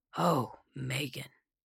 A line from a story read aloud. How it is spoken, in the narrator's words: said solemnly